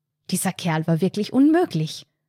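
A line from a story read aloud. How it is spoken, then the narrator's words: Angry hiss through pressed lips. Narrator (German): wütend presste die Lippen zusammen, ehe sie zischte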